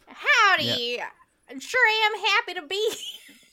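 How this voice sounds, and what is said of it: Fake Southern accent. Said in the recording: “It's a giant accent ... fake Southern”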